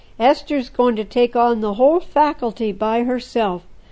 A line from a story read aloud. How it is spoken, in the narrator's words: another friend laughed